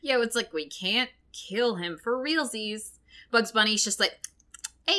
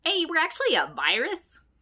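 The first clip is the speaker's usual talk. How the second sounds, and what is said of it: Poor Bugs Bunny cartoon voice impression. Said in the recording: “my Bugs impression is so bad”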